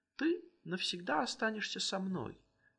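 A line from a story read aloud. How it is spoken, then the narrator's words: Exclaimed. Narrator (Russian): воскликнул он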